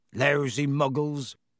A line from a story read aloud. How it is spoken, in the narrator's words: growled Hagrid